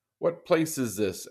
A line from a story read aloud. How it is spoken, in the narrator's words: asked Scrooge